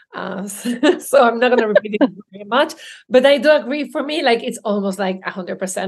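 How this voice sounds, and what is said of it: Spanish accent. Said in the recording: “my accent ... the way I say it sometimes with my Spanish accents”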